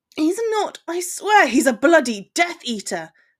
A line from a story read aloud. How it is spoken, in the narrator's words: Harry exclaimed